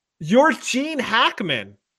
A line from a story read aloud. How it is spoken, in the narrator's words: I yelled out